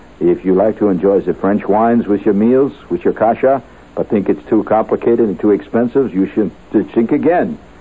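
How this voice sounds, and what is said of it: Put-on French accent. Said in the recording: “reading the French accent”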